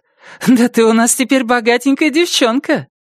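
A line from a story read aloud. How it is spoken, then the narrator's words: Joyful squeal. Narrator (Russian): Джасмин радостно визжит и заявляет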